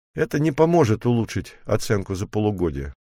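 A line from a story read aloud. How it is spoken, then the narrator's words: Sad sigh. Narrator (Russian): грустно вздохнул Джерри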